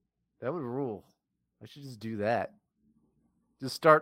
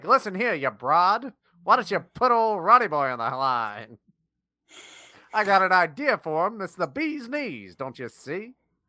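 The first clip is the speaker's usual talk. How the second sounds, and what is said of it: 1920s transatlantic accent. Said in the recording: “with a transatlantic accent from the 1920s”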